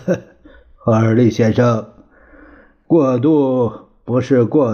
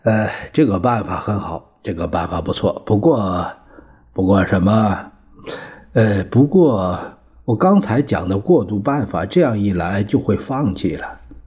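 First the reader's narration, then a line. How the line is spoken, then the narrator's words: Admiring. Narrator (Chinese): 他赞叹说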